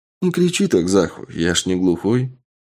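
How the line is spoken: Calm deep young male voice. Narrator (Russian): Спокойным глубоким голосом произнес молодой человек лет 25

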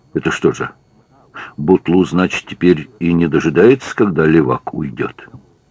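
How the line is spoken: Surprised whisper, suppressing laughter. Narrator (Russian): Катрин, удивленно и едва не фыркая от смеха, зашептала на ухо Захарию

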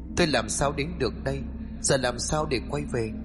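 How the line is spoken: Muttering. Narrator (Vietnamese): cậu lẩm bẩm

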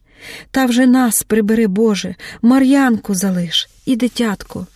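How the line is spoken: Quiet mumbling. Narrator (Ukrainian): Кривошиїха забубоніла щось тихо

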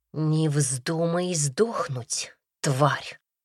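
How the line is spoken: Hiss into ear. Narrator (Russian): прошипели мне прямо в ухо

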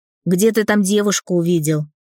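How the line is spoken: Angry smirk. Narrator (Russian): зло усмехнулся Дэн

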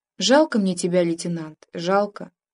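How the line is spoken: Misty-eyed whisper. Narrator (Russian): глядела в лицо затуманенными глазами и шептала

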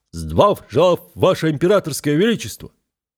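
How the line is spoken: Loud barked chorus. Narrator (Russian): рюлики, хорошо гаркнули

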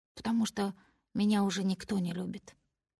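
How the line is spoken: Whisper. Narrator (Russian): говорю шепотом я

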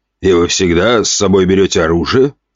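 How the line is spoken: Skeptical snort. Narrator (Russian): хмыкнул тот

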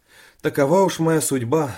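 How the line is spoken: Sad. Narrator (Russian): сказал печально

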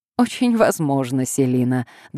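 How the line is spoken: Good-natured laughter. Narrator (Russian): добродушно рассмеялся Огаст Хемпель

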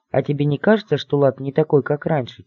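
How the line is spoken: Quiet bird's question. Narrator (Russian): тихо спросила птичка

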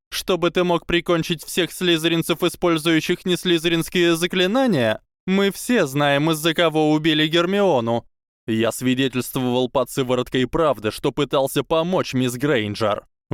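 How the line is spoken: Shouted. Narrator (Russian): выкрикнул Драко

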